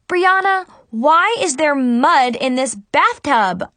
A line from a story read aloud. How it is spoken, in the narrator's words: I screamed